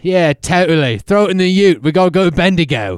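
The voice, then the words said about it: Put-on Australian accent. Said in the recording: “now we can talk in all Australian accents, mate.”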